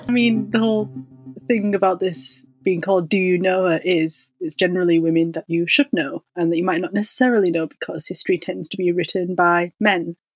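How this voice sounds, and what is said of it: Northern English, West Yorkshire accent. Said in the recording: “you can tell that we don't have the same accent ... I'm from West Yorkshire in England ... up north”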